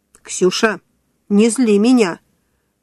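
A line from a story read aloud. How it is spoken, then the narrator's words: Stern command. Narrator (Russian): строго приказала Вика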